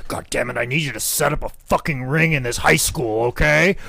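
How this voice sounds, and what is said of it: Imitates another person's voice. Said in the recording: “my Michael Bikiki impersonation is the same as my Vince McMahon impersonation”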